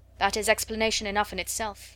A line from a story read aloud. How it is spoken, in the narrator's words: said Mr